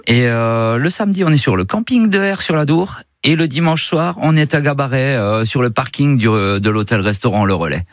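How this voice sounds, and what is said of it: Belgian French accent. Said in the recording (French): “c'est génial cet accent belge ... cet accent qui est juste formidable”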